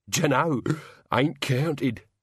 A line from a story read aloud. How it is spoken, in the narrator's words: said Albert happily